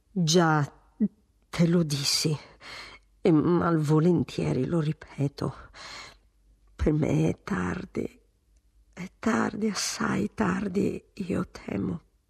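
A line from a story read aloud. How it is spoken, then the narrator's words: Twitchy stammer. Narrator (Italian): il marchese, contraendosi tutto, quasi avesse una pulce in una spalla, balbettò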